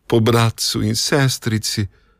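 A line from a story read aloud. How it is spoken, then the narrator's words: Sobbing boy answering. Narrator (Slovenian): je odgovoril deček in jokal še huje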